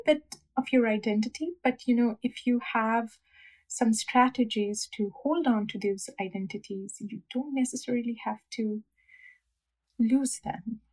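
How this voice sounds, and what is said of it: South Asian accent. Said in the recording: “I am never going to give up my South Asian accent.”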